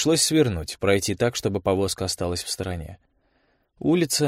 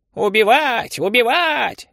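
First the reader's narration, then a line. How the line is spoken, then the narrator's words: Sudden parrot screech. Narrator (Russian): неожиданно завопил попугай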